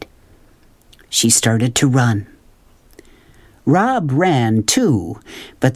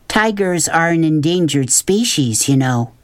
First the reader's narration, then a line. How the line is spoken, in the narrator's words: she said